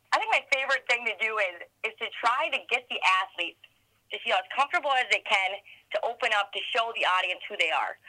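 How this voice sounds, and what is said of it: Minnesota accent. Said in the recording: “my Minnesota accent,⟧ has traveled with me here, and it sticks out like a sore thumb here”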